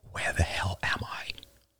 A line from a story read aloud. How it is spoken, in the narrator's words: I whispered